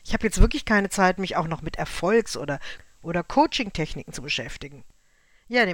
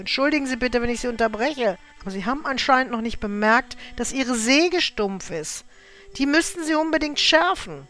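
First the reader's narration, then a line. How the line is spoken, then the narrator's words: Called out. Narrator (German): rief der Wanderer ihm deshalb zu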